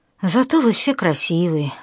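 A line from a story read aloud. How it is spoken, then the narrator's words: Sighing. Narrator (Russian): вздохнул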